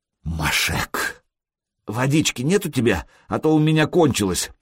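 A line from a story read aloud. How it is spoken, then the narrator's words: Hoarse wheeze. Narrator (Russian): просипел друг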